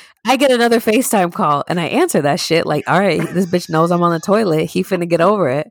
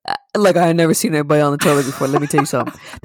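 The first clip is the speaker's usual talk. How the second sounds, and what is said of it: Imitates another person's voice. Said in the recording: “That's my Steven impression, by the way.”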